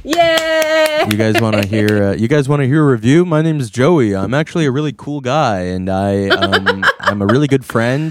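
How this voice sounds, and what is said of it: Imitates another person's voice. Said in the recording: “Do an impression of him. ... I was just doing an impression of you.”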